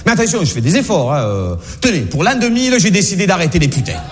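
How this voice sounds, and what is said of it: Marseille southern French accent. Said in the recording (French): “je le fais bien l'accent ... je suis né à Marseille, j'ai un accent”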